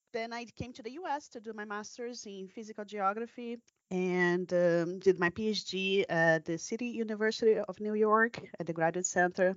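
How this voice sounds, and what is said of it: Brazilian accent. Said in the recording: “I'm Brazilian. That's where my accent comes from.”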